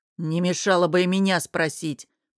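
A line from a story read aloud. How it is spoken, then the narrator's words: Grumbling. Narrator (Russian): проворчал Ранмир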